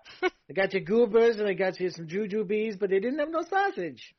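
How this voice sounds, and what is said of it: New York accent. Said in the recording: “I'm going to talk with a New York accent.”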